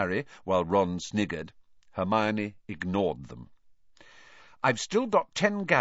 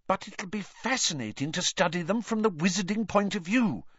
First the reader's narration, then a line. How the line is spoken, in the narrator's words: said Hermione earnestly